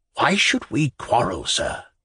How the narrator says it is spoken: whispered the gentleman in raccoon

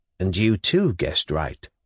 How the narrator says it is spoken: Nikolai Vsyevolodovitch went on in a tranquil voice

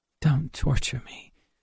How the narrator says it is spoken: she replied very feebly

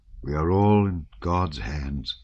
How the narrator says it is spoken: said he with a sigh

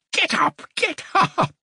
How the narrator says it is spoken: said Dunya, laughing, though she, too, was upset

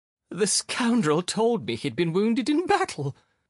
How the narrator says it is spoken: the young lady sobbed

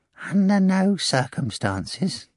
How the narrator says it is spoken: Korofyov piped anxiously over Margarita's ear in a prompter's voice

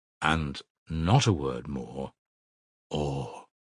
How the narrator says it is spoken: said quietly and distinctly

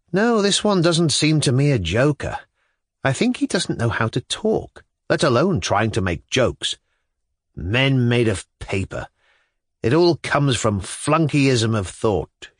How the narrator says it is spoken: Shatov observed calmly

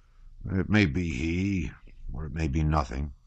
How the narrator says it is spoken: muttered the hussar

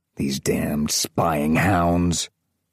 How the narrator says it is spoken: growled a man

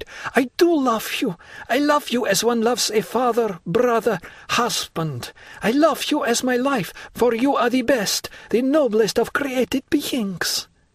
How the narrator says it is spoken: cried

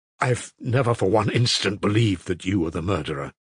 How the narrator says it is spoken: broke in a shaking voice from Alyosha's breast

